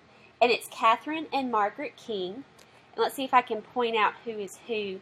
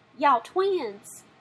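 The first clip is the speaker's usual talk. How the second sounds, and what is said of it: Put-on Southern accent. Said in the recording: “You have to say it with a southern accent.”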